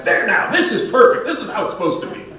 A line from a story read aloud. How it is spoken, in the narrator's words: he finally yells back